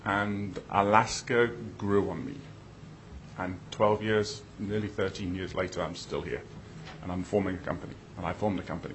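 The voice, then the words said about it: British accent. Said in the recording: “as you can guess from my accent, I'm a transplant ... go back to the UK”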